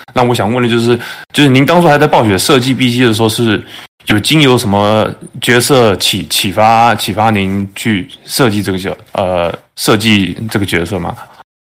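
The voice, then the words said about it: Taiwanese Mandarin accent. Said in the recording (Chinese): “听您的口音好像是台湾的是吧”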